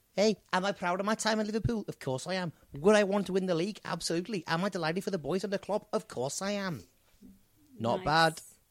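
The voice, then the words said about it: Scouse Steven Gerrard impression. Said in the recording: “say one thing in a Scouse accent ... I'm Steven Gerrard ... I suppose you did that quite well”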